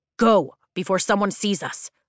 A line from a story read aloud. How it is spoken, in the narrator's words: Dane barks